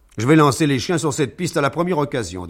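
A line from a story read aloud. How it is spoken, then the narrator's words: Fierce declaration. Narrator (French): déclara Egbert d'un ton farouche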